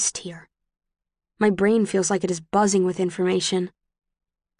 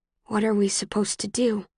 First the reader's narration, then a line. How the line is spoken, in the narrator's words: I say, my voice barely more than a whisper